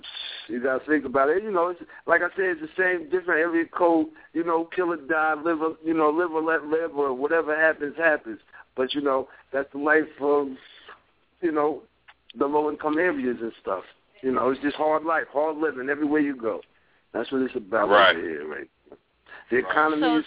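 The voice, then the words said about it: New York accent. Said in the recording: “I hear the twang. You're from New York.”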